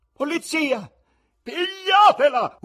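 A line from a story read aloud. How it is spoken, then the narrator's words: Wife's terrifying scream. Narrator (Italian): urlò la moglie con voce così tremenda che molti sentirono raggelarsi il cuore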